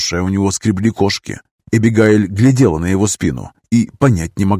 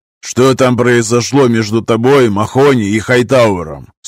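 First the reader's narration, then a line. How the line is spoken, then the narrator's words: Stern question. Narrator (Russian): строго спросил полковник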